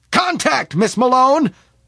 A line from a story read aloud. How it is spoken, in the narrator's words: shouted Smith